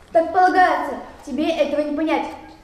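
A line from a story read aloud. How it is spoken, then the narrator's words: Shout. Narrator (Russian): крикнул Фриц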